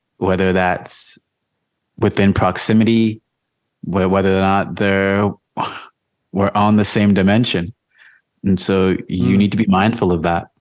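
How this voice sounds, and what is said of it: Deeper radio-style voice. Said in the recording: “You have more of like a deeper voice than you're talking with. ... It's my radio voice.”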